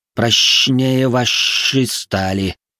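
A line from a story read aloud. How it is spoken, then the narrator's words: Proud hiss. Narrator (Russian): горделиво прошипел русал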